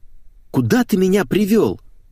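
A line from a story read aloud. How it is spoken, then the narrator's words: Shrill squeal. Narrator (Russian): взвизгнула Леся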